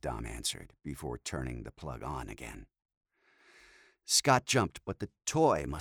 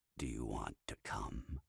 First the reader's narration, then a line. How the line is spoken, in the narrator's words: asked with a low growl